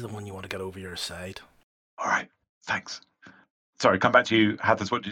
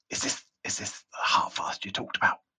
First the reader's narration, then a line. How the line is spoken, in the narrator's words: he whispers really slightly quietly